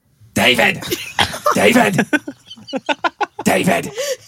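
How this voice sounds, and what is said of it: Imitates another person's voice. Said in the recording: “I actually have a great Harvey Fierstein impression ... That's my impression. ... That's really good, though.”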